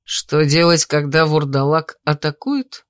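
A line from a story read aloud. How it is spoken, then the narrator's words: Laughing. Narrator (Russian): Я рассмеялась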